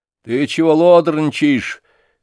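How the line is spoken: Father shouting. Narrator (Russian): крикнул на него отец

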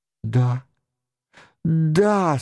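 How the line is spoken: Moaning. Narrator (Russian): стонала она

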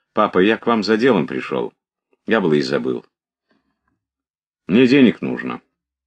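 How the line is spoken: Forced offhand tone. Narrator (Russian): самым небрежным тоном, таким, что он сам себе гадок казался, как будто он просил экипажа съездить в город, он сказал отцу

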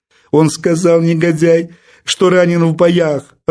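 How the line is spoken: Sobbing. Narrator (Russian): рыдала барышня

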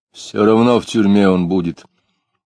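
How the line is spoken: Muffled grumble. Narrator (Russian): глухо проворчал Иноков

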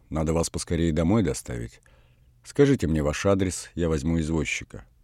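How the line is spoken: Quiet. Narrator (Russian): Он тихо сказал Саше

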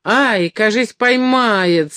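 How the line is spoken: Terrified shout. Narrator (Russian): с ужасом кричал Доможиров

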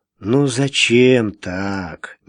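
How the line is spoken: Gentle objection. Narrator (Russian): мягко возразил Иван

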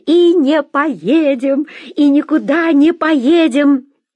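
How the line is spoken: Shouting. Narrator (Russian): закричала

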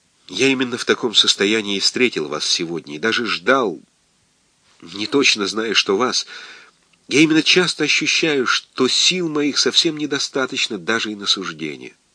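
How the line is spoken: Quiet. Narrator (Russian): Тихо сказал

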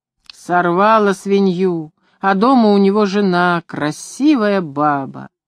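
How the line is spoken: Unsmiling mutter. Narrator (Russian): Не смеялся только Фома, бормотал

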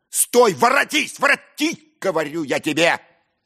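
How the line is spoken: Unnatural bark. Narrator (Russian): я так неестественно рявкнул

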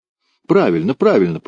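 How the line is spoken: Laughing, broken accent. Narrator (Russian): повторил он на ломаном языке, смеясь

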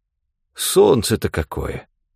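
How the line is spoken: Quiet exclamation, old man. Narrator (Russian): негромко воскликнул старик

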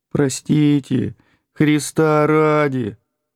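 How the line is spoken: Whining in a strange voice. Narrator (Russian): Саша Яковов не своим голосом, точно старенький нищий, тянул

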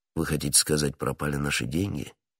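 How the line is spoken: Calm correction. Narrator (Russian): спокойно поправил его Атос

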